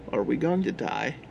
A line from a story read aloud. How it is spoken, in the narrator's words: asked Max